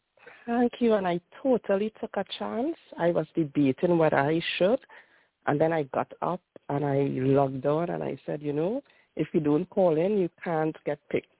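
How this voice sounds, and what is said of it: Speaks with a noticeable accent. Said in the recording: “I love your accent. I so love your accent. It's so beautiful.”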